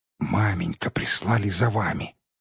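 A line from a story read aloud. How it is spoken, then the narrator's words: Whisper. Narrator (Russian): проговорил он шепотом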